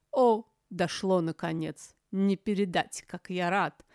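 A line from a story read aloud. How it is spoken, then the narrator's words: Sarcastic snort. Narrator (Russian): фыркнул Каэрх с неизменным ехидством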